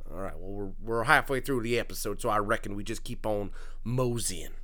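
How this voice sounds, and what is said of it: Put-on country accent. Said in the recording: “I sound like Mr. Mackey sometimes when I'm trying to sound country ... I have a right to talk like this”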